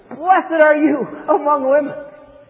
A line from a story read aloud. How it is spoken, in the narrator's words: in a loud voice, she exclaimed